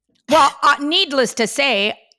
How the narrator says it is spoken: I screamed bloody murder

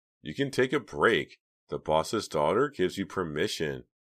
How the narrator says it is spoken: he laughed

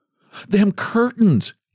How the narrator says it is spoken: gasped

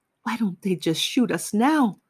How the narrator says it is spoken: Meerkats was moaning

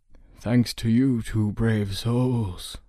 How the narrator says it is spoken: wheezed

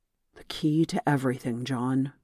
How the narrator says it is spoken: Raoul replied

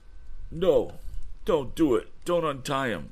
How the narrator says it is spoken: begged

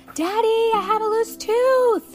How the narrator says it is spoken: she shouted

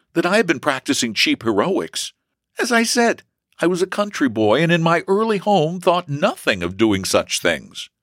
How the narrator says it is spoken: he replied earnestly

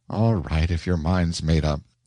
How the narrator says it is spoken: sighed Sally

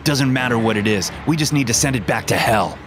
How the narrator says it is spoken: he yelled as he ran towards the beast

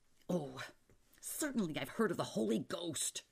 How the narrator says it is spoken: Asbury said furiously

